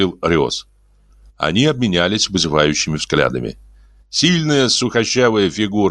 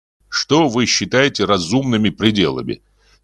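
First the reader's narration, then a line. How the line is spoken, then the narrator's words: Angry question. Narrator (Russian): сердито спросил Лонг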